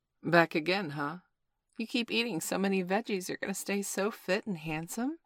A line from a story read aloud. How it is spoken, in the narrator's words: purred the mature Latina produce clerk